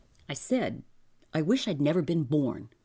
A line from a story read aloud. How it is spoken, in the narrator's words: George repeated, firmly